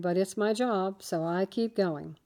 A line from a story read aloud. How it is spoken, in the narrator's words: he said calmly